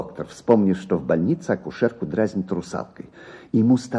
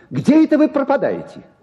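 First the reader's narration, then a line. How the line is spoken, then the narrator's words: Shout. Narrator (Russian): крикнул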